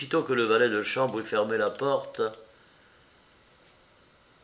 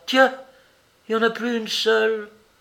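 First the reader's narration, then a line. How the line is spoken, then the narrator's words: Exclaimed. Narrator (French): s'écria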